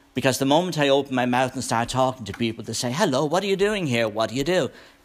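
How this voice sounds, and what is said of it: Irish accent. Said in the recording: “I was an ambassador for Ireland ... I'm not going to lose my accent.”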